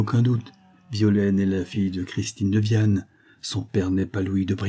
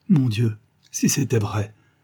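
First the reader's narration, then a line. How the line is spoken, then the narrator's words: Distraught stammering. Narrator (French): balbutia Hervé, éperdu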